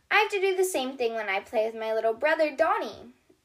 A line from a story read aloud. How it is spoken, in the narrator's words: Doc exclaims